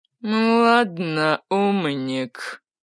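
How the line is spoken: Through gritted teeth. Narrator (Russian): процедил сквозь зубы Чак Милый

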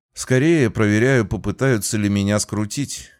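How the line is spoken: Snort. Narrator (Russian): я хмыкнул

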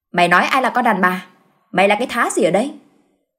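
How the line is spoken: Woman shouting back angrily. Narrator (Vietnamese): người phụ nữ kia quát lại

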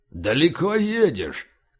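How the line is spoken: Deep bass. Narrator (Russian): густым басом задал седой ожидаемый вопрос

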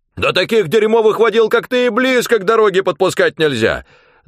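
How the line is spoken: Yelling. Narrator (Russian): завопил

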